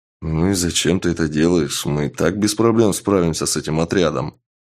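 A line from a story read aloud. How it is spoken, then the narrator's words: Grumbling. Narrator (Russian): проворчал подошедший к магу воин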